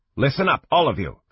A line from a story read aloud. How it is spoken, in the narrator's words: Fanrar said, her tone sharp